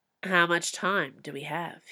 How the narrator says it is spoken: he asked

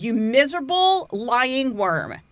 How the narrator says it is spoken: A weeping Alice stood and shouted

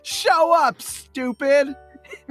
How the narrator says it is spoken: he yells

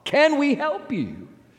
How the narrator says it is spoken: the Peruvians yelled out

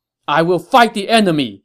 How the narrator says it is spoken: he shouted to his comrade Xu Huang

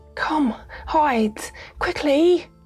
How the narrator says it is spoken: she cried

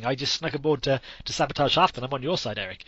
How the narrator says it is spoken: quickly fast talks his way out of it, saying

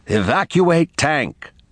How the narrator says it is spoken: He tried to sound calm as he hollered

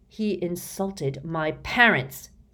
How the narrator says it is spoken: snarled George

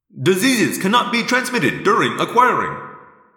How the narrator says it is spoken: I said quickly

